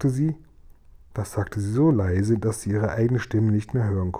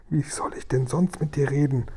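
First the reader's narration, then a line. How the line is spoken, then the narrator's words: Breathy whisper. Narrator (German): hauchte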